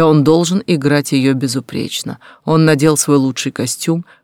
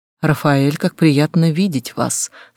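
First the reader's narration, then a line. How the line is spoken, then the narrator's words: Soft gentle voice. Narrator (Russian): сказала она мягким голосом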